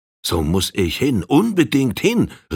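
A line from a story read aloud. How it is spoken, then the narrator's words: Shouting. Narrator (German): rief Old Firehand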